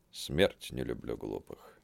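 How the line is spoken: Sigh. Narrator (Russian): вздохнул Игнат

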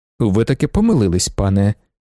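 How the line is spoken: Plain. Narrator (Ukrainian): відповів Вокульський

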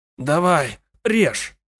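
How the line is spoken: Hoarse rasp. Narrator (Russian): прохрипел Брамс

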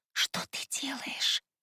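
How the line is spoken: Startled whisper. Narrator (Russian): Шепотом спросила я, ощутив пальцы на шее

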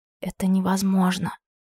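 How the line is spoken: Enchanted whisper. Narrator (Russian): прошептала зачарованно

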